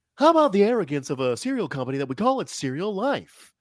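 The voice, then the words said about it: Imitates another person's voice. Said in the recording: “your Jerry Seinfeld impression. ... It was good. Honestly, it was better. I think people can tend to overact the Jerry Seinfeld voice.”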